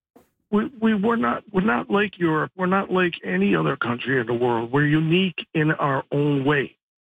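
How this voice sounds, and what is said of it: Impaired, unusual-sounding voice. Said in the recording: “Excuse my voice. I have a serious disability.”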